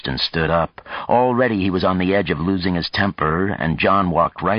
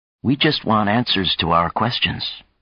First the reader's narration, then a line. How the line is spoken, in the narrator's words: Chang said gently